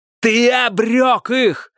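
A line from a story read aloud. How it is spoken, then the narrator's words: Shout. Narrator (Russian): закричал Милос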